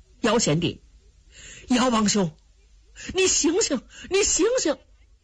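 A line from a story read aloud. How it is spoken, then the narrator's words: Two people calling repeatedly. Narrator (Chinese): 两个人叫了半天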